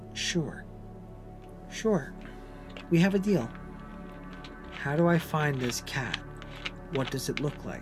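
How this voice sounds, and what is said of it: Gentle, soft voice. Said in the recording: “in my gentlest voice”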